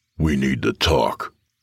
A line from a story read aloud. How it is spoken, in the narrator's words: Nathan said, his voice low and threatening